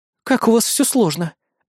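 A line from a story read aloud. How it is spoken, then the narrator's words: Resigned sigh. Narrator (Russian): обреченно вздохнула Кри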